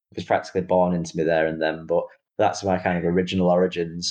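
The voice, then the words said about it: Mancunian English accent. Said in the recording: “the proud Mancunian accent”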